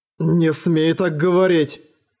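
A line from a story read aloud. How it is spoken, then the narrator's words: Growled. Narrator (Russian): прорычал Эрагон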